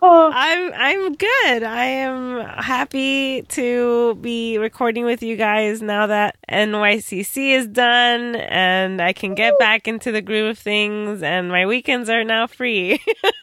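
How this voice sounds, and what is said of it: Hoarse, worn-out voice. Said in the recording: “My voice is totally shot.”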